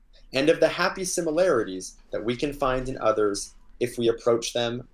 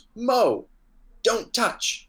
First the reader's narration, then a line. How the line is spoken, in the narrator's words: Feldman cried out